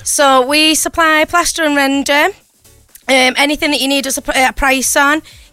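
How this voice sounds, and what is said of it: Strong St. Helens accent. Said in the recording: “Oh, what an accent this is... This has got to be St. Helens... she's from Sint... We love your accent.”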